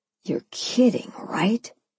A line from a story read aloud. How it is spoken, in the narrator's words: He moaned in my ear